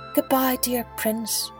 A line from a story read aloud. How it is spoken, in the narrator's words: he murmured